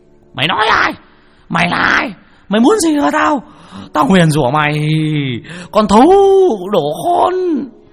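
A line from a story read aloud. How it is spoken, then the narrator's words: Frantic howling. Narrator (Vietnamese): Lão dãy đành đạch như là con chó ở trên nương, nó rú lên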